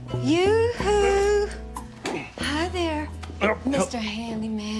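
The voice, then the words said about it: Fake put-on character voice. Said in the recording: “What is that voice you're doing? It's so fake.”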